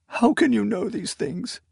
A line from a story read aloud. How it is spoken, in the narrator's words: She sobbed